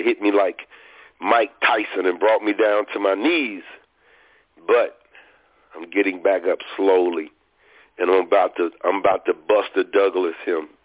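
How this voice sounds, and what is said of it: Hoarse, fading voice. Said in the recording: “my voice is almost gone. It's coming in and out... Had a terrible sinus attack this weekend”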